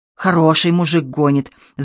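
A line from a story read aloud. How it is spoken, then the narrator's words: Breathless hiss. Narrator (Russian): зашипел, передыхая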